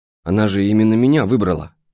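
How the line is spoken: With a scoffing grunt. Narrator (Russian): хмыкнул

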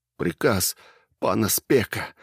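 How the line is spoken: Sobbing. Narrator (Russian): всхлипнул

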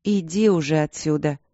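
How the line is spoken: Weary. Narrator (Russian): устало ответила она

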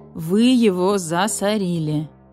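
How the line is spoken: Tired. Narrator (Russian): устало сказал барсук

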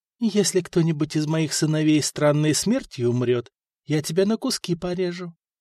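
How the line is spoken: Gentle, menacing whisper. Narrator (Russian): ласково прошептала Людмила

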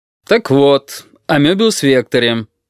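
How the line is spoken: Suddenly loud. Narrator (Russian): неожиданно громко вдруг сказал Мохов

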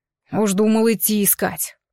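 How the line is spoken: Grumbling. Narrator (Russian): проворчал таран

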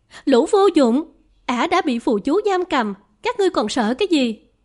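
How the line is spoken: Loud shout. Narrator (Vietnamese): A Sử Na Ngọc Đóa quát lớn

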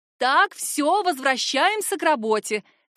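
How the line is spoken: Commanding. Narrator (Russian): командует Анна

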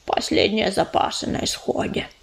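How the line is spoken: Mumbling while chewing. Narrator (Russian): прошамкала она, не переставая работать челюстями

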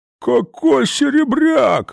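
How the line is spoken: Fat man wailing. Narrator (Russian): взвыл толстяк

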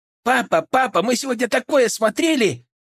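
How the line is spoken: Girls nearly shouting in chorus. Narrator (Russian): Хором почти что закричали девчонки

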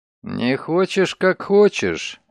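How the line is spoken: Grumbling mutter. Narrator (Russian): буркнул он

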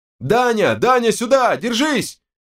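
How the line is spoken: Shouting over each other. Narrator (Russian): Наперебой орали Берс и Терехов

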